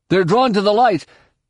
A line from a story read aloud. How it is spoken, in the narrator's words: Jason shouted